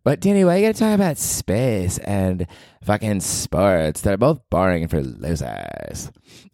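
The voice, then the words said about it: Put-on girly female voice. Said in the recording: “what is my girl voice?”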